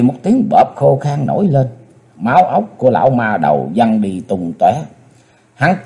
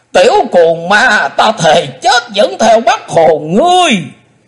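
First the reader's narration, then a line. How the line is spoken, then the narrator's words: Sudden hateful shout. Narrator (Vietnamese): Đột nhiên lão lùn quát lên giọng căm hận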